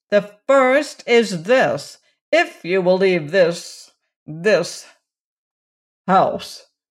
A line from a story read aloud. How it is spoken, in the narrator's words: interjected Roaring Abel